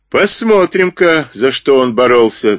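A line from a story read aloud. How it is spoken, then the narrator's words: Laughing. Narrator (Russian): засмеялся Морган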